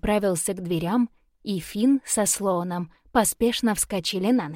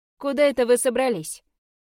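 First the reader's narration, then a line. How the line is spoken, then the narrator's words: Sighing. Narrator (Russian): Вздохнул Финн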